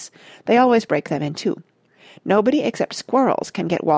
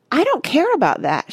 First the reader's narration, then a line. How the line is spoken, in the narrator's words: shouted Veruca